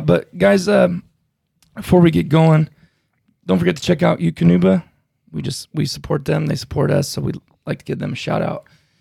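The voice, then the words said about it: Worn-out, tired voice. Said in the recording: “My voice is a little worn out from the other podcast we just got done”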